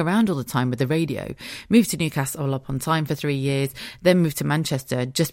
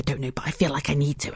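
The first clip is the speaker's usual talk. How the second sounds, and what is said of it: Whispering. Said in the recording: “why am I whispering?”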